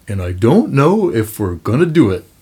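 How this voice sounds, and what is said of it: Imitates another person's voice. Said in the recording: “good Bill McKibben impression”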